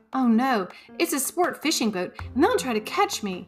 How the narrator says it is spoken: cried Rainbow

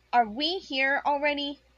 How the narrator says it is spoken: asked brightly

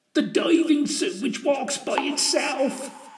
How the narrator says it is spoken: pleaded old Jethro

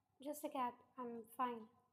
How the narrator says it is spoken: Namjoon replied in a monotonous tone

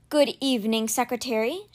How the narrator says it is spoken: Strang said nervously

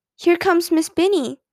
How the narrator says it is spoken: someone called out

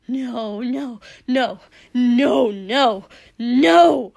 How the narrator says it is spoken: Dobby hissed

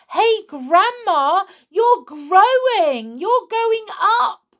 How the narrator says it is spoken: George gave a jump and shouted

